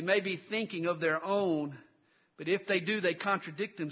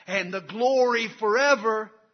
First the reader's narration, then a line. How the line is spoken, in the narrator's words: that high school football team shouts out